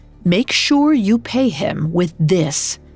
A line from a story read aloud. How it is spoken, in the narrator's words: She spoke firmly